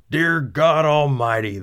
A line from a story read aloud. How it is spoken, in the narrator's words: the pilot cried